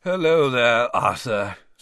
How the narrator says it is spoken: said Basil wearily

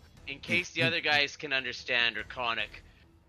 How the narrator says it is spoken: Krellin yells

